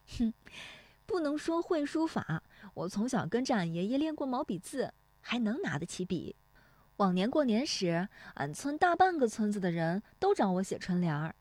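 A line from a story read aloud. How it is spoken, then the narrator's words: Laughing. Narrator (Chinese): 乔红梅笑说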